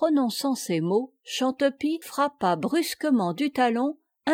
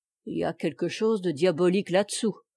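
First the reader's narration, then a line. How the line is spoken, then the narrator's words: Murmuring. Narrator (French): murmura ce dernier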